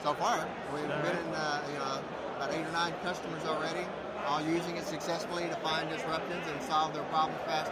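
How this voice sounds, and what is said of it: Texas accent. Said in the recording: “I can tell. Get the accent.”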